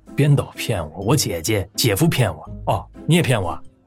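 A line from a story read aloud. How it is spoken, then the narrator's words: Scoffing laugh. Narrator (Chinese): 陈星阳嗤笑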